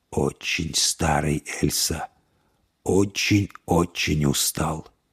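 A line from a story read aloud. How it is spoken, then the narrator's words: Weary whisper. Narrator (Russian): прошептал волчье сердце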